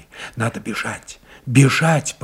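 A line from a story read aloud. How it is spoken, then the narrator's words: Frightened babble. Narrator (Russian): пролепетала она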